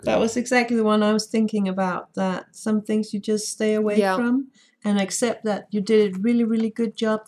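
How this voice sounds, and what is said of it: Beautiful mixed accent. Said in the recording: “Your accent is so beautiful... You sound just like her. It's beautiful... a mixed accent from being on the internet for too long... It's a beautiful accent”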